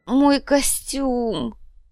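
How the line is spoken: Moan. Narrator (Russian): простонал Биджар

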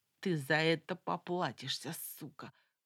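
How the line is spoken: Hissed. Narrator (Russian): прошипел Семечка

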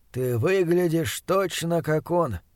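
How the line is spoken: Said softly. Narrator (Russian): мягко сказал Чандлер

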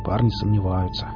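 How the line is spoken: Dejected mumble. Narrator (Russian): уныло пробормотал Велес

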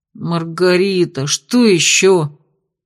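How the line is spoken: Groaned. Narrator (Russian): простонал парень

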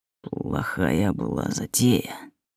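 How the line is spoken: Barely audible hiss. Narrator (Russian): прошипел едва слышно

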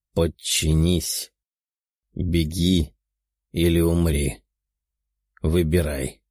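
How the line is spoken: Calm demonic voice. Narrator (Russian): спокойным голосом произнес демон

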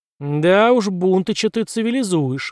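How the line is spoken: Roared. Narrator (Russian): взревела Уокер

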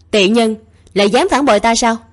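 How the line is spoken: Angry annoyed voice. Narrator (Vietnamese): vẫn còn chưa hết bực bội, tức giận nói

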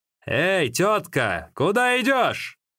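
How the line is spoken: Loud call. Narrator (Russian): Джаншуня, который громко окликнул

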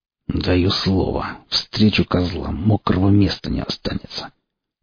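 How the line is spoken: Through gritted teeth. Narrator (Russian): сквозь зубы процедил он

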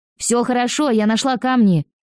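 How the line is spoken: Shouted reply. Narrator (Russian): крикнула в ответ

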